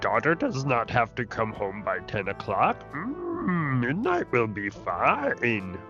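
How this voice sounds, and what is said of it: Yoda character voice. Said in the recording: “That's not cool, Yoda.”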